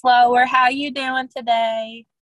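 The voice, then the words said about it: Slower, sweeter Southern accent. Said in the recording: “talk like a Southern person ... A little bit slower ... make myself a little bit sweeter”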